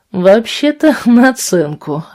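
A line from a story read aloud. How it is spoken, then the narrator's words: Laughing. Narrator (Russian): рассмеялся он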